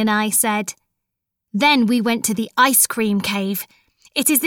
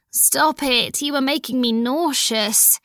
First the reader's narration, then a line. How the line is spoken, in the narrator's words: I moaned